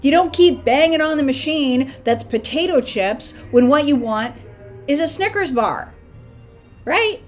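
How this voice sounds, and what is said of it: Loud, yelling delivery. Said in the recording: “Sorry, I'm yelling. This is me yelling at myself.”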